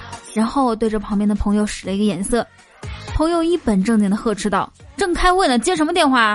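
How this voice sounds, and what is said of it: Usual voice. Nothing is said of it.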